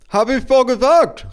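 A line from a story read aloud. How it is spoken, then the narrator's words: Called out. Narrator (German): rief meine Mutter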